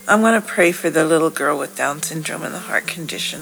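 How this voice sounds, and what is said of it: Voice affected by a cold. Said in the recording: “just on the tail end of this cold, so forgive my voice.”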